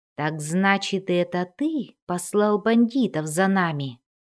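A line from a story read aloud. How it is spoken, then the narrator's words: Young woman's ominous tone. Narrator (Russian): зловещим тоном сказала девушка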